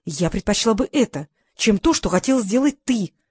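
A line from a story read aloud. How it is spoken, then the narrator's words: Loud whisper. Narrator (Russian): ответила она громким шепотом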